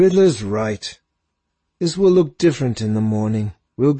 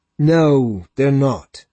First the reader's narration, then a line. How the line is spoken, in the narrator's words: Nico said wearily